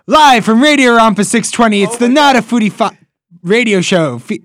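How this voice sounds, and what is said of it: Energetic radio announcer voice. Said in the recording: “I want to hear your best radio voice ... you need more energy ... like Guy Fieri”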